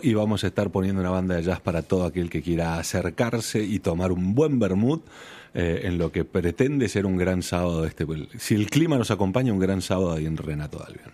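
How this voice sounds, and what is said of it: Late-night radio announcer voice. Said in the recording (Spanish): “Pone voz de locutor de trasnoche ... Tienes muy buena voz.”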